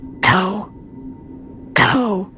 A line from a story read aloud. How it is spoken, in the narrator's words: Adrian yelled